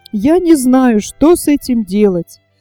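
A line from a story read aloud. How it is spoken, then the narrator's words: Desperate exclamation. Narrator (Russian): в отчаянии воскликнула Изабел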